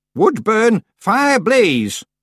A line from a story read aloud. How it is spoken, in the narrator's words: she shouted